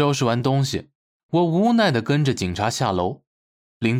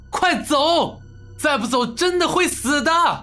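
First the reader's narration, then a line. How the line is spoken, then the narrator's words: Urgent shout. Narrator (Chinese): 冲齐亚亚大喊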